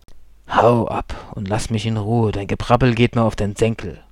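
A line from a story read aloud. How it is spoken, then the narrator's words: Growled. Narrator (German): knurrte er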